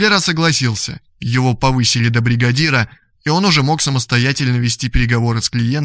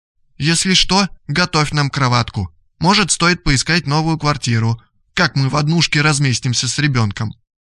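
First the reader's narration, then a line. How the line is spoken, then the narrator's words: Surprisingly calm speech. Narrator (Russian): Она держалась на удивление спокойно и сказала мужу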